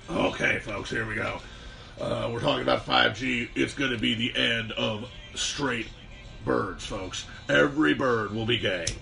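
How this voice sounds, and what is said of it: Alex Jones impression. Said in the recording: “did do an Alex Jones impression”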